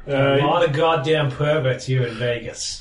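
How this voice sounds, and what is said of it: Put-on character accent. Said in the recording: “I'm loving this accent right now. A lot more than his”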